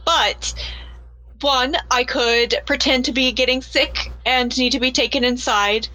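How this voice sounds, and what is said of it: Inconsistent put-on accent. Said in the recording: “my accent is all over the place today”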